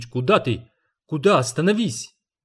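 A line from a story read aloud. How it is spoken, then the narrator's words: Shout. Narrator (Russian): успел лишь крикнуть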